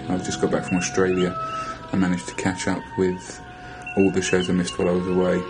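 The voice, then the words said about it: Distinct foreign accent. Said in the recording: “I love your accent.”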